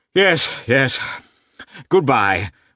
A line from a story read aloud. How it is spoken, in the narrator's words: uttered Lievin, gasping with excitement